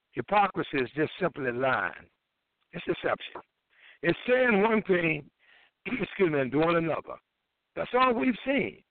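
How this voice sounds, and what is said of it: Hoarse voice. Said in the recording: “I'm a little hoarse.”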